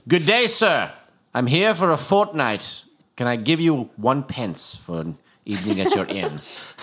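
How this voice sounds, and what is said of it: Put-on British accent. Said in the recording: “a word that I say when I use a British accent”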